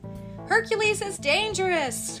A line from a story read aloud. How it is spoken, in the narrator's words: cried one of the merchants